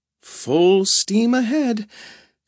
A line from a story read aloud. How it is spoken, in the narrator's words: she said shakily